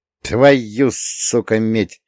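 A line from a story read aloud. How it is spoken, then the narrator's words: Hissed through clenched teeth. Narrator (Russian): сквозь сжатые зубы прошипел я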